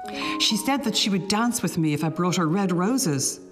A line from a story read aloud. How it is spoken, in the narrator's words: cried the young student